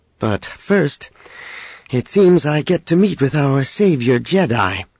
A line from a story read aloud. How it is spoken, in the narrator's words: Leia added dryly